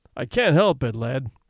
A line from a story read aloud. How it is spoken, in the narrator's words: he said kindly